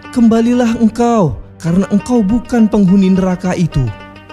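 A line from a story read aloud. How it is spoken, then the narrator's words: Screaming call. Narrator (Indonesian): seseorang menjerit memanggilku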